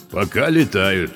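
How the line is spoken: Low booming voice. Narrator (Russian): прогудел низкий голос

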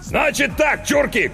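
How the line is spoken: Shouted. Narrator (Russian): крикнул он

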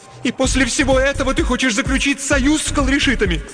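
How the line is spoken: Nearly shouting. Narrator (Russian): почти закричала

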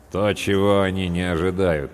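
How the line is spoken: Grim. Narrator (Russian): мрачно произнес третий сержант

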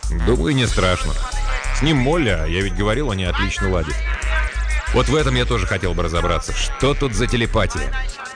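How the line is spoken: Sudden laugh. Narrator (Russian): Джек неожиданно рассмеялся

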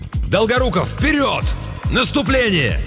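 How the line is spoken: Shouted. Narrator (Russian): крикнул

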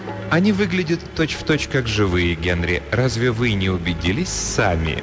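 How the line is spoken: Ingratiating question. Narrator (Russian): вкрадчиво спросила она

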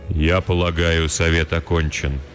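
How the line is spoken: Surprisingly even, calm voice. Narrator (Russian): удивительно ровным голосом произнес старший кудесник

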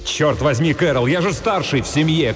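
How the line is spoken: Desperate shout. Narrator (Russian): крикнул я в отчаянии

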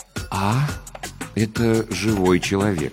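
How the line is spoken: Uncertain, hesitant. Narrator (Russian): неуверенно начал он

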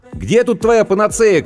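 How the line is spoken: Shouting. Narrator (Russian): крикнул я

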